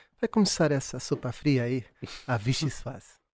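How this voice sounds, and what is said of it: Poor put-on Brazilian Portuguese accent. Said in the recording (Portuguese): “Vou, vou parar com isto do sotaque brasileiro. Claramente não tenho jeito.”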